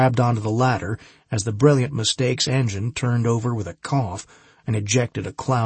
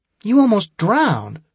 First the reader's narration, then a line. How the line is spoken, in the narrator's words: she pleaded